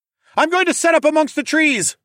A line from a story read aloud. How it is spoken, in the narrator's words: I yelled